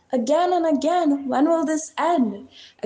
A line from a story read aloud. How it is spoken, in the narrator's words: exclaimed after slamming his front door